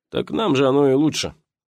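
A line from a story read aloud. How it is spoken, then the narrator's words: Short laugh. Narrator (Russian): хохотнул Вася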